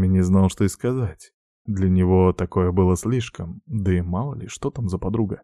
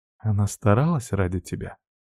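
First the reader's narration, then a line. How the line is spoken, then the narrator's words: Whispering. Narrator (Russian): шептала Арина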